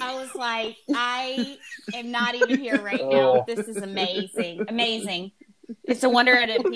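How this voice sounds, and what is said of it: Usual voice. Nothing is said of it.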